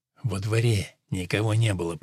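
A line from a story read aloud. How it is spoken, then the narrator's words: Whispered. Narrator (Russian): прошептал он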